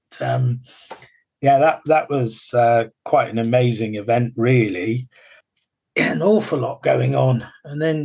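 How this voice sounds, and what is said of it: Gloucestershire Somerset English accent. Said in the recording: “my sort of Gloucestershire Somerset accent”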